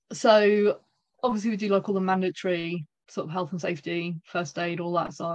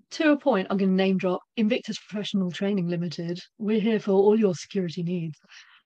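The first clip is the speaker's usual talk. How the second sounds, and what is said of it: Announcer-style radio voice. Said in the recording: “you got radio voice there ... Oh, it was awful.”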